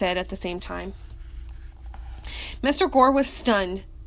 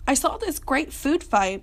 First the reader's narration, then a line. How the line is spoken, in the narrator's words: timidly began